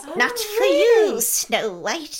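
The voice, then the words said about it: Old witch character voice. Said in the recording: “That's a good impression. ... That is a good impression.”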